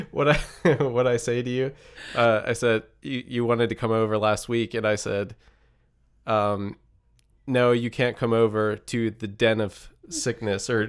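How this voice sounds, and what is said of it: Nasal congested voice. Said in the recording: “you can still hear it in my voice, so forgive me for having a weird nasally voice, but I did contract the plague”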